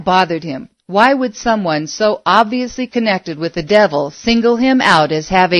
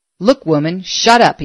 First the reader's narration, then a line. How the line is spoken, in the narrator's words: he snapped